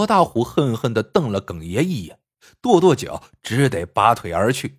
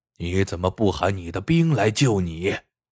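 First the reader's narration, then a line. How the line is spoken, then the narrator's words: Cold. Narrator (Chinese): 耿爷冷冷道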